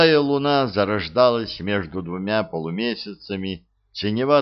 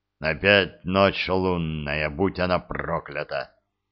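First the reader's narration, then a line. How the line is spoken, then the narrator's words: Angry grumble. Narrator (Russian): зло проворчал Глодов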